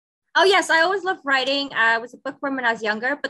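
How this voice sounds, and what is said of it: Mixed American-British international accent. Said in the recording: “Did you get your British accent from her? ... It's not really British, I think it's more American. ... I thought it'd say American more than British, but sometimes I know I do sound a little British”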